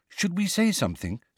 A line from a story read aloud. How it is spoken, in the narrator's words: said Hermione in a worried voice